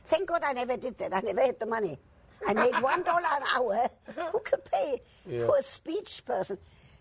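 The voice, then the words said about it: Foreign-accented English. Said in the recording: “to learn my accent ... You have to take a speech teacher to lose your accent.”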